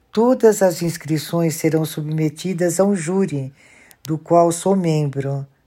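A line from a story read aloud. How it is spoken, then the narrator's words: Plain. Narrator (Portuguese): disse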